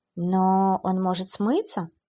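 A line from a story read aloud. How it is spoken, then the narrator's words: Uncertain. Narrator (Russian): неуверенно сказала она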